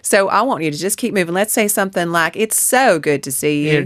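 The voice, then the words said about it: Southern US accent, melodic and sliding. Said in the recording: “a rhotic accent like this southern U.S. ... there's a real melody going on with this accent, and I'm sliding through words ... just on ice skates”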